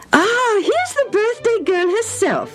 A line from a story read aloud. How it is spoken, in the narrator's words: her mother said merrily